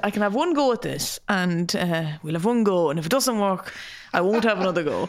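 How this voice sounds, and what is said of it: Imitates a woman's accent. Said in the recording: “that's an accurate depiction of her accent.”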